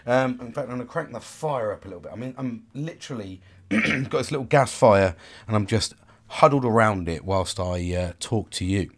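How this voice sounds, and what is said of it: Sore throat, voice affected by cold. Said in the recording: “I've got a bit of a sore throat. ... this bloody cold I've had for bloody couple of weeks now”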